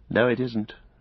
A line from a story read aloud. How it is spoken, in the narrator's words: said Frodo